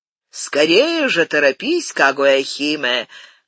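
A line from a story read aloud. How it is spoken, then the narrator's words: Shout. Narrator (Russian): крикнул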